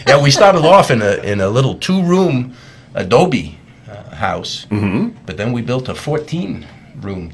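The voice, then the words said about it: Put-on New York accent. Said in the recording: “do I have to keep doing the New York accent? ... It's hurting my tongue.”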